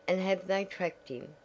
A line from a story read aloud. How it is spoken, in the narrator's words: asked Tavia